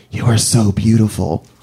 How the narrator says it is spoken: he puts his mouth close to my ear, and he whispers

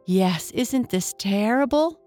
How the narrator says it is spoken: exclaimed the doll

